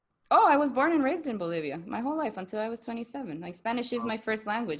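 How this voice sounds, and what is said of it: Latina accent in English. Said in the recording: “a friend of mine has has a similar accent to you ... it's uh, Mexican ... It's the Latina accent.”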